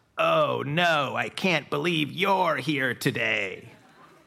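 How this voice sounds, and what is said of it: Creepy voice. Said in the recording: “I say in this kind of creepy voice”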